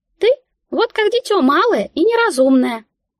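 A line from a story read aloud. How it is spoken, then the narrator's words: Mouse's squeak. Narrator (Russian): как-то пискнула мышка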